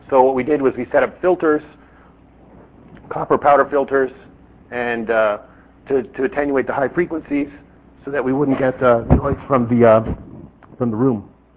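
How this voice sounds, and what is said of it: Strained, fading voice. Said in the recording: “I'm losing my voice.”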